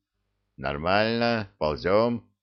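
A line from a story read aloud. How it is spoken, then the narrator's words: Slightly hoarse voice. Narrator (Russian): хрипловатый голос ответил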